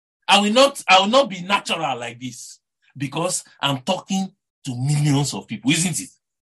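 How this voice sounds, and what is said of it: Nigerian English accent. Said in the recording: “Someone like me that has a Nigerian accent. Very crude.”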